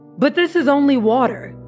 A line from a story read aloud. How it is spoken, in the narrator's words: The farmer tasted and shouted